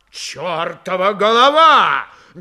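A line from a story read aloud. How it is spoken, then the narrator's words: Loud furious exclamation. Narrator (Russian): громко воскликнул вскипевший Фомин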